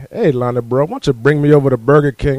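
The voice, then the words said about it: Imitated Southern accent. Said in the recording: “he speaks with the southern accent”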